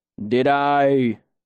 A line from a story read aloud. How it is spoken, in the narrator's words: His voice rolled out slowly, like dark honey